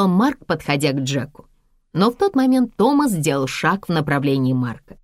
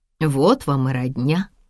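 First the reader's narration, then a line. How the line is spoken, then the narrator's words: Mutter. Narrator (Russian): пробормотала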